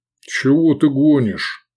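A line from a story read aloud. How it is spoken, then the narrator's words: Booming. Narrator (Russian): прогудел Гефестай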